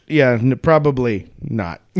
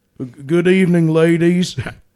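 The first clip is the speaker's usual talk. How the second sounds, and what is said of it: Put-on posh old English accent. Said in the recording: “This is a proper Regency English accent.”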